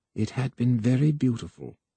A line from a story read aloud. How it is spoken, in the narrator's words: Voy said softly